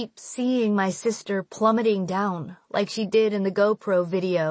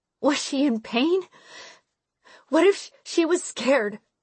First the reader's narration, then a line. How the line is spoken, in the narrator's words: I gasp, the air catching in my chest